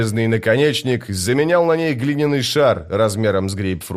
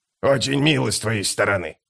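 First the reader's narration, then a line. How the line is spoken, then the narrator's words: Muttering. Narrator (Russian): пробормотал скрипач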